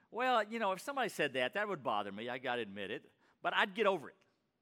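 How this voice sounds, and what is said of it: Texas accent. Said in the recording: “your Texas accent”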